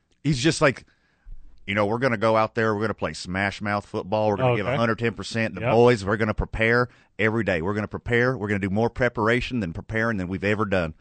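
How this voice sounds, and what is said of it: Generic football-talk voice. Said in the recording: “He's doing a random football voice”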